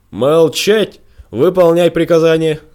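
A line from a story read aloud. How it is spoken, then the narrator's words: King yelling. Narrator (Russian): завопил король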